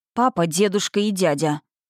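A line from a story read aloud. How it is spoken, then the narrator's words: Icy tone. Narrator (Russian): ответила я ледяным тоном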